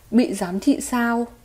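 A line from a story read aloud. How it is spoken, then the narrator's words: Soft chuckling. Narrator (Vietnamese): Mỉm cười Tiêu Viêm khẽ cười nói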